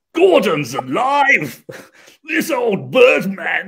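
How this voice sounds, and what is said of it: Brian Blessed impression, booming voice. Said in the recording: “the British actor, Brian Blessed”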